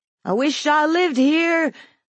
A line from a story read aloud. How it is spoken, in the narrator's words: the little boy shouted